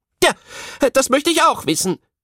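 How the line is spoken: Called out. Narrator (German): rief die Tischlerin

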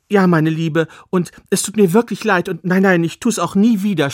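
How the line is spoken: Stammering. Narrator (German): stammelte

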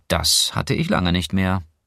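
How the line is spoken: Dry. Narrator (German): sagte Clara trocken

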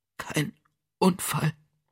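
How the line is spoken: Whisper. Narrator (German): wisperte sie

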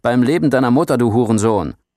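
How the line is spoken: Angry roaring shout. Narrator (German): Oberstleutnant Tarik spürbar ärgerlich brüllte

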